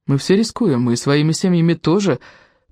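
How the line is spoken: Sad. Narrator (Russian): печально сказал Анри

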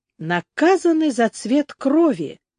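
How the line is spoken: Thoughtful. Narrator (Russian): задумчиво проговорил Дмитрий

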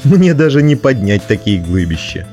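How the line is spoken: Laughing. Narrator (Russian): засмеялся

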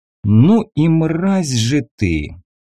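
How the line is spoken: Bewildered, through gritted teeth. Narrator (Russian): С искренним непониманием, как можно быть такой сволочью, процедил я

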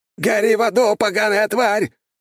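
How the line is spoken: Terrified scream. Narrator (Russian): в ужасе завопил князь

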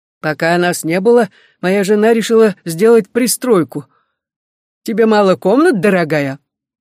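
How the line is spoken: Hearty laughter. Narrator (Russian): Эллиот смеялся от души, увидев нашу работу

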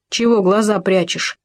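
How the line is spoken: Stern. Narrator (Russian): строго сказал заяц

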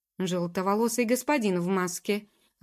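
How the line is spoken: Irritated. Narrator (Russian): раздраженно ответил Ноа

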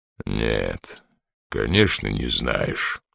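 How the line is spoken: Flat, colorless voice. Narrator (Russian): бесцветным голосом произнес ГМ

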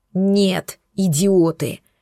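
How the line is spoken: Dragon's menacing roar. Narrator (Russian): еще более грозно рявкнул дракон

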